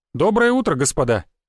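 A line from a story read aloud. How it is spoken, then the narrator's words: Cheerful greeting. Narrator (Russian): бодро поздоровался Сергей Александрович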